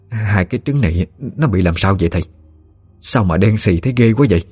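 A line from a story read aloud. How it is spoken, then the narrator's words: Trembling broken speech. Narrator (Vietnamese): bà run rẩy nói không tròn câu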